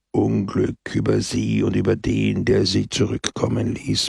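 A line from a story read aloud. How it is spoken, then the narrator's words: Murmured darkly. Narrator (German): murmelte Pepone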